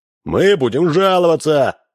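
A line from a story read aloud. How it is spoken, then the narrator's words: Yelling. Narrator (Russian): вопили третьи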